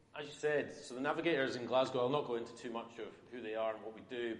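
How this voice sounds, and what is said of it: Mumbly West Coast Scottish accent. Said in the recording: “I'm from Oban ... a mumbly West Coast accent ... that is my tendency to start to talk like this”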